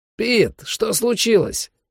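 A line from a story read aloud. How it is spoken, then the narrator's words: Crackling radio voice. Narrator (Russian): проскрипела рация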